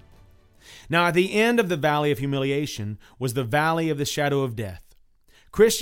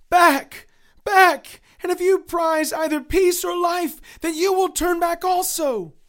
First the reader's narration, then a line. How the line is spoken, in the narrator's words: They cried